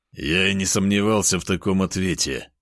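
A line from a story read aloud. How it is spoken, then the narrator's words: Snorting. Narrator (Russian): хмыкнул я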